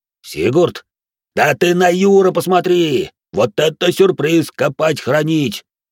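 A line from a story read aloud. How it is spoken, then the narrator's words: Loud yell. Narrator (Russian): заорал грохот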